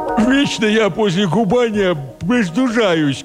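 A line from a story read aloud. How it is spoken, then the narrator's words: Nasal complaint. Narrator (Russian): гнусаво посетовала она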